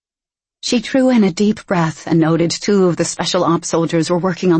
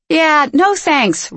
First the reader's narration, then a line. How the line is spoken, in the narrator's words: Ryan shouted back